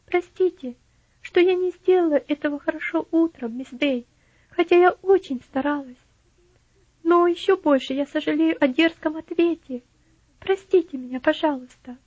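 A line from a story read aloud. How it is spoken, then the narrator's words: Timid, remorseful. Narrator (Russian): Элси вспомнила, что ее несдержанность была причиной обильных слез раскаяния, и робко ответила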